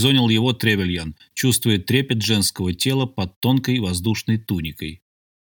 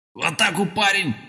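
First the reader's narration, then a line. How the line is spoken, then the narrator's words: Commander's barked order. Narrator (Russian): рявкнул командор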